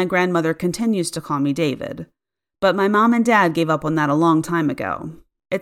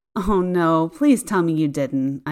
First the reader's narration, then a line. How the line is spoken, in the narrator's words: groaned